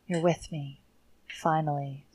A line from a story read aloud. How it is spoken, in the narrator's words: whispered